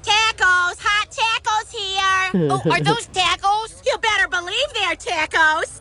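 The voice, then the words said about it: Put-on Minnesota accent. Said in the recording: “doing a Minnesota accent”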